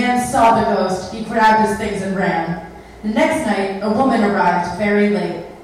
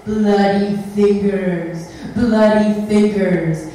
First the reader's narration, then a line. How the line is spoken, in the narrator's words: Its fingers were bleeding and it was moaning